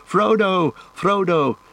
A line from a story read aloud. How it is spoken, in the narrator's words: Merry and Pippin had followed, and they were already disappearing westward into the trees by the shore, shouting